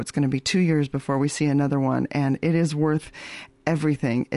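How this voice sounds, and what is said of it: Slightly hoarse voice. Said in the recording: “my voice might also be a little bit hoarse ... cheered and whooped and celebrated in a theater”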